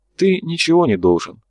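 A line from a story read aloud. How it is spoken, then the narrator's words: Sad wry chuckle. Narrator (Russian): грустно усмехнулся тот, кто был за зеркалом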